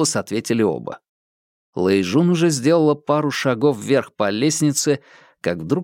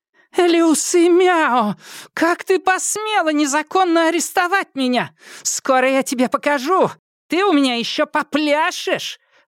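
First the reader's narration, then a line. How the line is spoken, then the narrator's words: Shouting. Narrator (Russian): кричала Лю Сяохун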